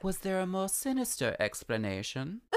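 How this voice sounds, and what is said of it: Impression of a TV character's voice. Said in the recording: “doing my absolute best like Moira Rose impression ... That was really good.”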